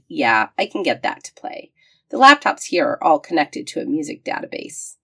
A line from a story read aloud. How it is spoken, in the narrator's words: Andrews sighed and said